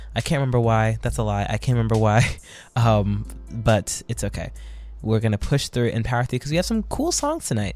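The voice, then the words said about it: Strained, worn-out voice. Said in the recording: “My voice is a little bit shot”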